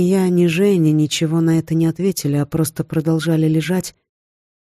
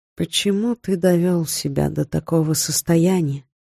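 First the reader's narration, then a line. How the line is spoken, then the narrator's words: Quiet question. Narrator (Russian): тихо спросила я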